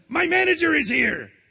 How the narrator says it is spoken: cried Mr

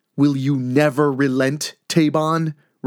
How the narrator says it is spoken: Richland yells

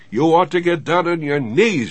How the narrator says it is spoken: she shouted like a complete nut

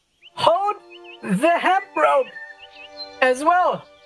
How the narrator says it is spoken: she shouts still

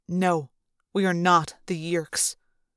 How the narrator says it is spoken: he said coldly

